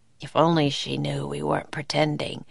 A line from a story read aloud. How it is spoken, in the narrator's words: Jack whispered to Annie